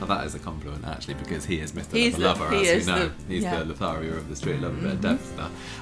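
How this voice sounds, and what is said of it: Usual voice. Nothing is said of it.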